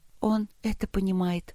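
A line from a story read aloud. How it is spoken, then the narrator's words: Sad. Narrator (Russian): грустно сказала Полина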